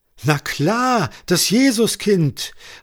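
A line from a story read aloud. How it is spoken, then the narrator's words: Child calling out. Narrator (German): rief der kleine Tobias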